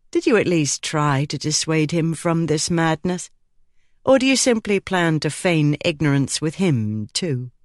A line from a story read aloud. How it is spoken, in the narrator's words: his voice was even